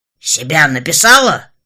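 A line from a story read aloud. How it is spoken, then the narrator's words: Deep bass voice. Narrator (Russian): пробасил он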